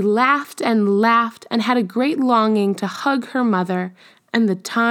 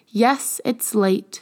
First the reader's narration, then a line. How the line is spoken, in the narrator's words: said Arundel